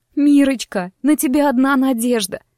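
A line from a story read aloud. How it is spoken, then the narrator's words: Pleading. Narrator (Russian): взмолилась я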